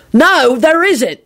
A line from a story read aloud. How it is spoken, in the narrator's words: Sirius yelled